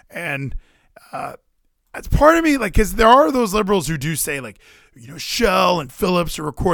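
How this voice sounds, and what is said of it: Usual voice. Nothing is said of it.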